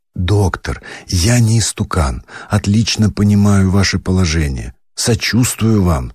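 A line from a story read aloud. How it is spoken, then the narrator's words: Pleading voice. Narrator (Russian): сказал умоляющим голосом Абогин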